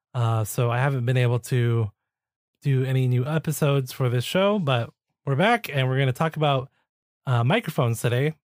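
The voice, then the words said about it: Sick-sounding voice. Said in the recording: “I got really sick. In fact, I'm still sick. You can probably hear it in my voice.”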